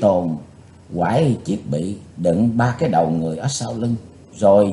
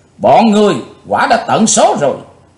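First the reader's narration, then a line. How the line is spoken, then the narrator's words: Furious loud shout. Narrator (Vietnamese): Chí Tôn cháy phần lửa hận, chàng thét to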